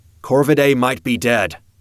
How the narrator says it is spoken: I called out

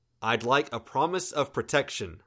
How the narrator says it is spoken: I called out

